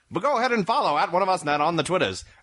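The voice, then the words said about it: Old-time 1930s radio announcer voice. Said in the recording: “I'm still doing my 30s radio voice.”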